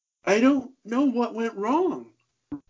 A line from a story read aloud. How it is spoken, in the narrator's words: Ramon said in between deep, heaving sobs